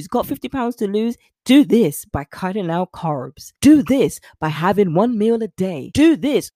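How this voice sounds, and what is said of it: Put-on American accent. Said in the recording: “Sorry, no offense to those in the States. Let's go back to my accent. ... Doesn't sound the same”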